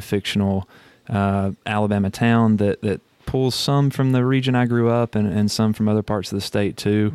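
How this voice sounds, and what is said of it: Mild Alabama Southern accent. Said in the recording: “Alabama born and bred ... you hadn't lost your accent, right? ... It's it's not as strong as it used to be”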